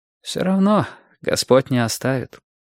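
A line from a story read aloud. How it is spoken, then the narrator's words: Priest's sigh. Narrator (Russian): вздохнул священник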